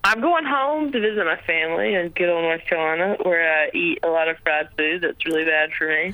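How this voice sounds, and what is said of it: Lovely Southern US accent. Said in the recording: “you have a lovely southern accent”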